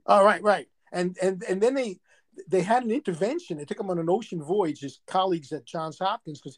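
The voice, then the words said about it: New York accent. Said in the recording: “You still have your New York accent.”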